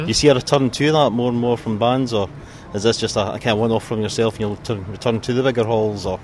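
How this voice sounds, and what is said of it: Strong Scottish accent. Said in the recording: “my problem with the Scottish accent. That was too much for me.”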